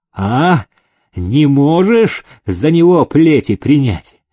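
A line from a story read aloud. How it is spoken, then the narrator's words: Cried out. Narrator (Russian): вскрикнул Прокофий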